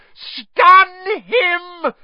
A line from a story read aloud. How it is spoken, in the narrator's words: he heard Voldemort scream